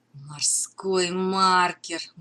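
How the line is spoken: Muffled, hollow. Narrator (Russian): глухо произнес Дженкинс

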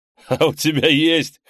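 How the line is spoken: Chuckled in reply. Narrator (Russian): хохотнул в ответ Ол-Рей

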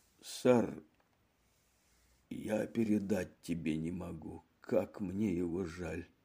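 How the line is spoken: Quiet after a pause. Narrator (Russian): После короткого молчания Чивер тихо проговорил

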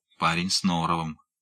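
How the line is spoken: Grumbled under breath, smirking. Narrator (Russian): буркнул про себя тот, многозначительно усмехнувшись

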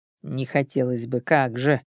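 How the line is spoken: Snort to oneself. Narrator (Russian): хмыкнул про себя Сергей

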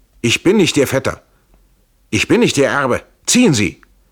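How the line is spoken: Called out. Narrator (German): Trenk rief

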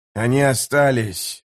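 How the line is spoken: Disgusted grumble. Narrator (Russian): проворчал Жемчуг с гримасой отвращения

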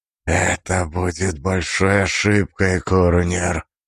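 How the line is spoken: Hiss. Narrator (Russian): прошипел

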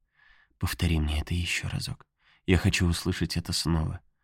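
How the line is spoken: Tender, affectionate. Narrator (Russian): ласково сказала

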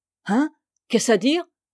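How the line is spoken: Stammering, taken aback. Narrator (French): balbutia Claude, interloqué

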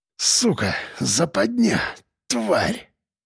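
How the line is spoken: Hoarse rasp. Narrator (Russian): прохрипел я

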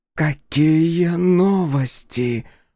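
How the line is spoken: Hoarse rasp. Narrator (Russian): прохрипела Тан

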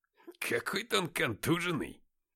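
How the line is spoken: Muttering. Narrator (Russian): пробормотал Никита

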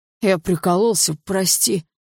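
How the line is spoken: Hoarse croak. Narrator (Russian): прохрипел пацан

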